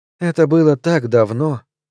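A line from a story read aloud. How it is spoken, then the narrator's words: Sigh. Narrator (Russian): вздохнула Клеанс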